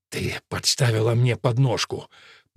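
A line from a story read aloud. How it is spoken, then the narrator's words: Said through gritted teeth. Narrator (Russian): процедил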